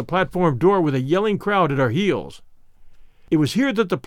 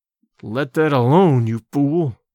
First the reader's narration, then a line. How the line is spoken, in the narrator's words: I growled in his ear